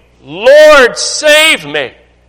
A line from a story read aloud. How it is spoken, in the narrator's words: beginning to sink, he cried, saying